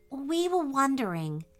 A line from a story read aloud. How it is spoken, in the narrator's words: asked Grace softly